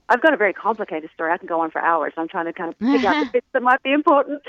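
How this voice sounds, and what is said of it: Slight Australian accent. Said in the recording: “I'm originally from Australia, and I think I might still have a little bit of an accent. ... I love it. ... the first Aussie we've had on ... I was still slightly there”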